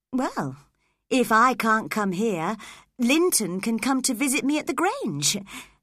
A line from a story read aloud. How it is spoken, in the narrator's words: suggested Cathy happily